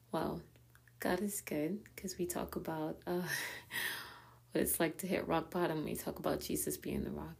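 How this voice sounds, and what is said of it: Raspy, strained voice. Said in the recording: “my voice is a little bit raspy. I feel like I'm losing my voice”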